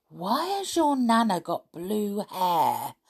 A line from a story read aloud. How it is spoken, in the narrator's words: I whispered to Gabby